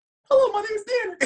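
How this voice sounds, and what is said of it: High-pitched Mickey Mouse-like voice. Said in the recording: “I try to do it in a high octave ... It's not like Mickey Mouse ... that voice ... wildly first of all, accurate ... I sound like Mickey Mouse”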